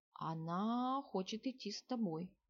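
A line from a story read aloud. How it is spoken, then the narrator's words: Quiet. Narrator (Russian): негромко сообщил он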